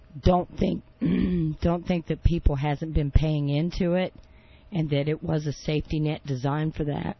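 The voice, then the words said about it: Hoarse, strained voice. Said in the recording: “I'm losing my voice. ... Yes, you are. ... that's what happens when you sit there and you scream at the sound bites”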